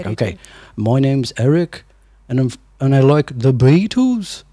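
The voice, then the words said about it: Put-on UK accent. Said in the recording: “I was working on my UK accent... you start at the bottom and you kind of go up a little bit... I got a long way to go... That's very good.”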